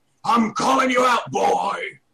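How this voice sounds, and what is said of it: Tough-guy voice imitation. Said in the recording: “my imitation of Greg Miller... when he does that tough voice”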